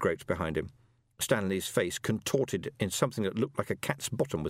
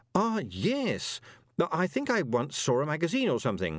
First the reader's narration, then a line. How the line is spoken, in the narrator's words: said Moist desperately